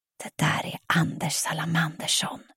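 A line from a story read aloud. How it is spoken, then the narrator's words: Whispering. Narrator (Swedish): viskar Freja när hon kommer halvspringande till oss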